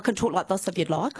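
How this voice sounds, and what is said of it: Strong New Zealand accent. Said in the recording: “you don't sound as New Zealand-y as I thought you might ... Oh, that's better ... I really do have a strong New Zealand accent.”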